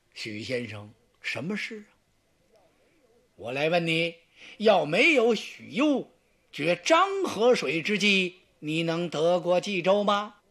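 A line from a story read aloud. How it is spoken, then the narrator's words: Smiling. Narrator (Chinese): 曹操冲他一笑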